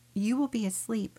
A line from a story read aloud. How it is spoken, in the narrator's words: Ruth replied